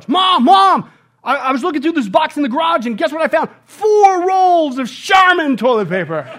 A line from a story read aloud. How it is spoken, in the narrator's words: my son yells from the garage